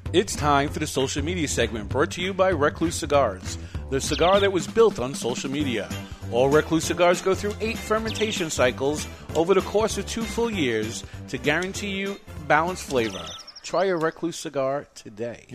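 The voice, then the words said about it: Announcer-style radio voice. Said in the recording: “You're really improving with your radio voice.”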